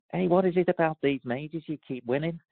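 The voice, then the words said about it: Put-on Scouse Liverpool accent. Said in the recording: “he was a Liverpudlian, he said we got call him a Scouse accent”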